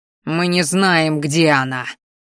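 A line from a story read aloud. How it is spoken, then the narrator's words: Growled like a wounded animal. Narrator (Russian): зарычал я, похожий в тот момент на раненого зверя, который ничего не мог сделать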